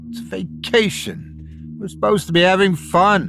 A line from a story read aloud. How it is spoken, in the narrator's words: I snapped